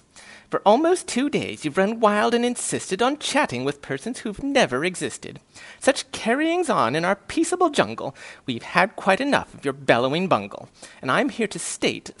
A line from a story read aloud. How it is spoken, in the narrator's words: snapped the big kangaroo